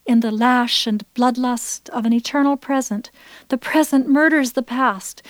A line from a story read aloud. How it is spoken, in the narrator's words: the nerve shrieks